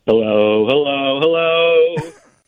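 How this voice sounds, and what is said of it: Imitates a Three Stooges voice. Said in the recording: “I don't usually do impersonations ... I guess I got in touch with my inner stooge.”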